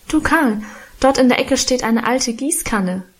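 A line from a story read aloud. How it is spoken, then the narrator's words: Calling out. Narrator (German): rief ich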